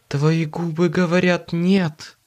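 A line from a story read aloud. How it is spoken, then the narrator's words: Purring. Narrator (Russian): Промурлыкала она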